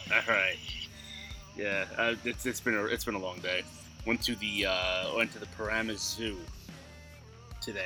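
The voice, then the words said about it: Tired, unenthusiastic voice. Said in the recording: “You sound very tired ... very tired these days. I don't sleep. ... not a very enthusiastic”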